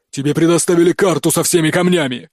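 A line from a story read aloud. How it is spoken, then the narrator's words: Barking. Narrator (Russian): рявкнул служитель хаоса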